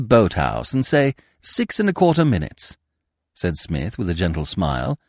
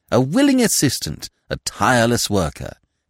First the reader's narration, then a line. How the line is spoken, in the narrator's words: said Smith warmly